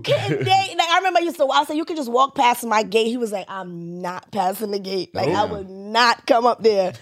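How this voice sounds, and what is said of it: Jamaican accent. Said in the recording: “I love your accent... I'm from Jamaica.”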